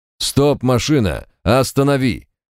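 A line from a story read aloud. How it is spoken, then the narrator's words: Loud yell over gunfire. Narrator (Russian): Заорал так, чтобы товарищ и без рации услышал, несмотря на грохот пулеметов дворника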